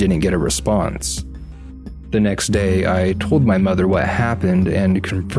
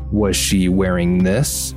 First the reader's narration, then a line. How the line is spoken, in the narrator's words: Mom asked